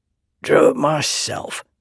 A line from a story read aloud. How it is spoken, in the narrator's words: he said with a grunt